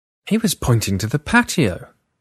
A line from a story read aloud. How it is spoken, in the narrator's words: I exclaimed